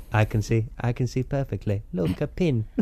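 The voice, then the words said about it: Impression of Donald Pleasance. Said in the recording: “I can do an impression of Hugh Dennis's impression of him ... you can do an impression of Donald Pleasance”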